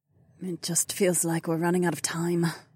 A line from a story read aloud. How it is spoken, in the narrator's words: she muttered